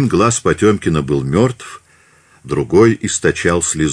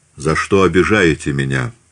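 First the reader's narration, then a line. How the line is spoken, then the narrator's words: Plain. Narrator (Russian): спросил он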